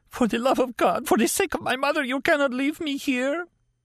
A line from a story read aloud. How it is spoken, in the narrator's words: Samat whimpered